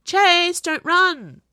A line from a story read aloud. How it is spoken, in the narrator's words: Cyrus called out